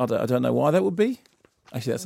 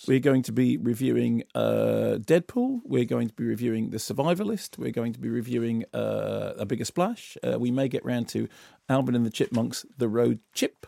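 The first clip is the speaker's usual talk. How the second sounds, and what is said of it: Bad Australian accent, rising inflection. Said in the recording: “Does everything have an up inflection at the end this week? ... I've gone all Australian. ... that's a terrible accent.”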